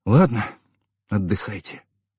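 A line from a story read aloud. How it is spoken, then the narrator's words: Quiet. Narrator (Russian): тихо сказал я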